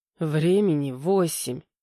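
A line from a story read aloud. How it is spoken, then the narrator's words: Heavy sigh. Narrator (Russian): тяжело вздохнул Витя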